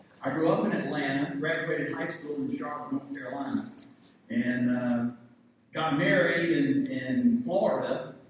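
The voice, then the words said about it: Southern American accent. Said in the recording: “I do have a rather Southern accent.”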